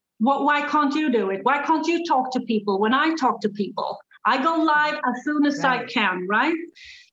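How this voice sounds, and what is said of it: Swedish accent in English. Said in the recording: “I speak English pretty good for a Swedish people, but I mean, I have an accent ... my accent in English”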